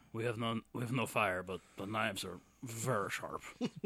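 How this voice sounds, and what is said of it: Deliberately bad imitation of another's voice. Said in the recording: “This is a terrible Van Damme impression.”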